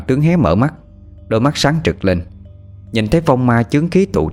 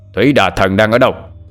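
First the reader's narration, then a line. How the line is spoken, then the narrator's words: Roar. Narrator (Vietnamese): Thanh Tự lại gầm lên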